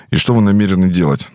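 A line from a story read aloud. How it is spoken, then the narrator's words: Forced out reluctantly. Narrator (Russian): наконец выдавила из себя Ирина Васильевна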